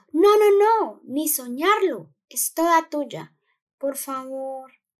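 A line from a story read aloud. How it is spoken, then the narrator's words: Pleading. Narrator (Spanish): imploró Charlie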